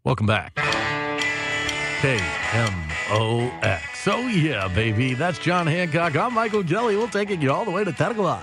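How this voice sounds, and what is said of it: Exaggerated radio DJ voice. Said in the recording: “Those are my Shawn Michael Lyle DJ voice... Yeah, that's not good.”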